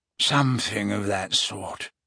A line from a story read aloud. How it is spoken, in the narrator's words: he mumbled